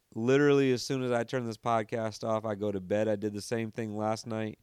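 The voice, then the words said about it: Raspy, tired voice. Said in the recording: “My voice gets a little raspy when it's later. I get a little bit tired.”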